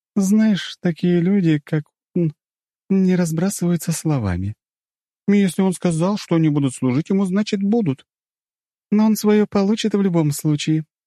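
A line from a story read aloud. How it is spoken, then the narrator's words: Sighed. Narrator (Russian): вздохнула Мира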